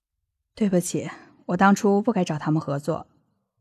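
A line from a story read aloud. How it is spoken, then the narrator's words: Sighing. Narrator (Chinese): 谢婉清叹了一口气，说道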